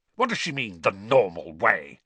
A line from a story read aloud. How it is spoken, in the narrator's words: he spat